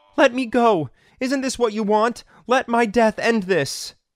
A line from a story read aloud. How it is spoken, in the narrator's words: Belle screamed